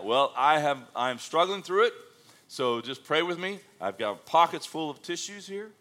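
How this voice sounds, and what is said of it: Congested, stuffy allergy-affected voice. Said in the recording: “I don't know if you can tell or not or hear it in my voice, but I've come to Taylorville and it's allergy time for me”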